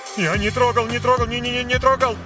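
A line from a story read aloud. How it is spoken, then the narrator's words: Rapid terrified chatter. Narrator (Russian): Затараторил он с ужасом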